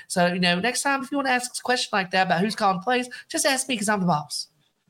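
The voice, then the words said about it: Fast-talking impression with regional accent. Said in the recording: “That is the speed of which Jimbo talks at. There's a little bit of that accent. That's good.”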